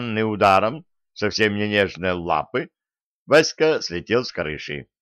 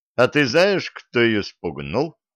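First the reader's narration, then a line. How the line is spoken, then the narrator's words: Joyful question. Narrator (Russian): радостно спросил Виталик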